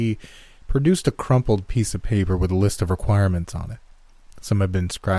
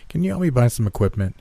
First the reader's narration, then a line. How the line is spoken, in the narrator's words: I tried not to sigh